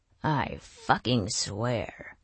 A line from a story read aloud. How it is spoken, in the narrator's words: Bernard grumbled